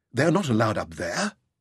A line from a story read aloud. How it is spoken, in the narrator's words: exclaimed David